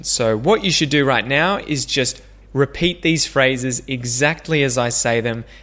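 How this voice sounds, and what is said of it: Australian English accent. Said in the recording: “pronounce these phrases just like me, to practice your Aussie English accent”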